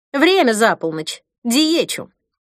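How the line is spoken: Less cold female voice. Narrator (Russian): Голос Ирины звучал уже не так холодно, как во время ее звонка из офиса

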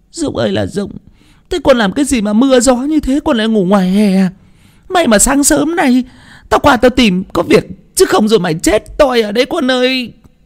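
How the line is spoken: Tearful old woman. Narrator (Vietnamese): Bà Dân mếu máo

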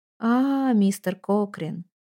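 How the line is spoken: Weary voice. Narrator (Russian): устало проговорила она

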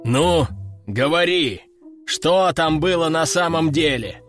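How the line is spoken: Growled. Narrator (Russian): прорычал в очередной раз начальник гвардии

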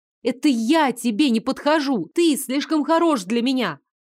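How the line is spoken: Furious shout. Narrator (Russian): выкрикнула с такой яростью

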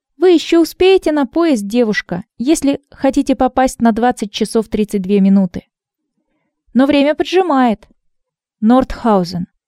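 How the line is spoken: Firm voice. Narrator (Russian): твердым голосом сказала Ирина

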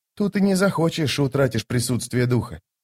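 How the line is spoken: Quiet muttering. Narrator (Russian): тихо пробормотал молоток

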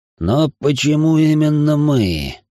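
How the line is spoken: Moaned. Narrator (Russian): простонал я

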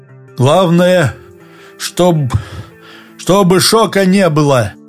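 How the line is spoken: Hoarse wheezing. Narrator (Russian): хрипел он

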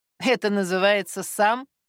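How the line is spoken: Snort. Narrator (Russian): фыркнула Татьяна Павловна

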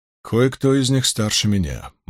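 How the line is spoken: Gloomy inner thought. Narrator (Russian): мрачно подумал Брин

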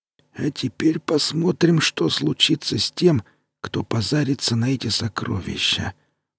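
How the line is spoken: Muttered. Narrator (Russian): пробормотал Таши

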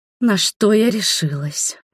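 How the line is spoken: Groaned. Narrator (Russian): простонала она

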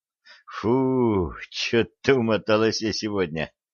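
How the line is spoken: Relieved exhale, young woman. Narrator (Russian): облегченно выдохнула девица

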